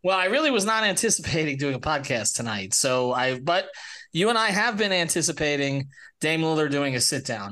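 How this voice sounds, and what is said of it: Sick, feverish voice. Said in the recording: “I apologize for my voice today. This is my Jordan flu game. I don't know what I woke up with, but 102 and a half.”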